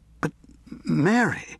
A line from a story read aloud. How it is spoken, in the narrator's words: Gareth gasped